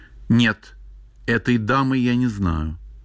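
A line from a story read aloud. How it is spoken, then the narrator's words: Simple, plain. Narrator (Russian): Ревекка ответила просто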